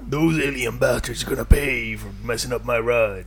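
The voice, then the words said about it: Duke Nukem video game character voice. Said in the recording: “which one of us can do the best Duke Nukem impression ... That was pretty good, man.”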